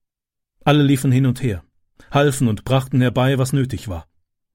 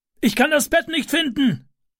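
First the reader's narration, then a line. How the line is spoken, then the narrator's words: Calling downward. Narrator (German): rief er nach unten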